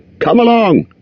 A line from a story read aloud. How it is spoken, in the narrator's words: shouted